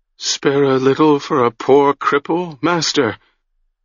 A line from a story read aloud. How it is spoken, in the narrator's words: whined